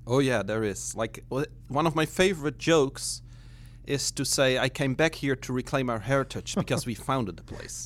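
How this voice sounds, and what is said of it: Dutch accent. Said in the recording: “an accent in your voice right away ... where is that accent from? ... From the Netherlands, originally.”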